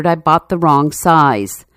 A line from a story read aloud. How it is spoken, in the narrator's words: muttered